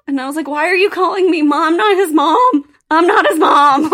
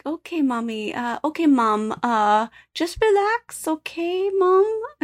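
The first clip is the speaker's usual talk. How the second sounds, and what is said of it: Put-on Filipino accent. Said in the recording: “That was a real close Filipino accent. I am nominating you for accent doer of the year.”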